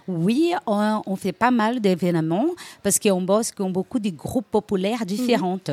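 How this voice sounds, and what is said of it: Brazilian accent in French. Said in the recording (French): “d'où ton accent, je suppose, tu es brésilienne.”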